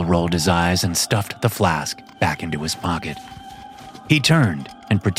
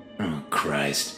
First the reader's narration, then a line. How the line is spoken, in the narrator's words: mumbled Kroll